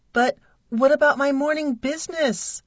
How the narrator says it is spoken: I whimpered

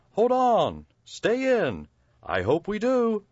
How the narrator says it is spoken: cried Ickle me, pickle me, tickle me too

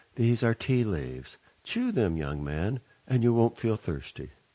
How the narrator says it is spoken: she said in a kindly voice

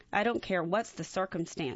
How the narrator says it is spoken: she said

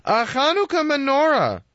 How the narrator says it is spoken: Fivel exclaimed

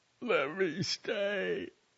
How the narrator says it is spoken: Fukai whimpered

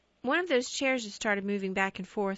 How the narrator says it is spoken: she replied

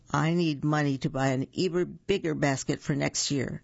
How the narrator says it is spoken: Betty Bunny exclaimed

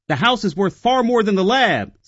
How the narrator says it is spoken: Sam snapped

